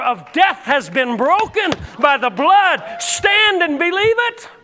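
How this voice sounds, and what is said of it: Yelling, loud preaching voice. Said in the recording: “You think I'm yelling at you, don't you?”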